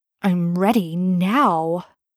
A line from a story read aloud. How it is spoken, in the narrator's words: growls